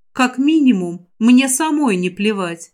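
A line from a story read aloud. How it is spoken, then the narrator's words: Calm remark. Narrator (Russian): спокойно заметила я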